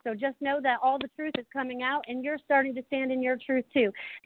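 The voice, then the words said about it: Excited, very fast speech. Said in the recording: “you can tell how excited I am because I'm talking so fast about this”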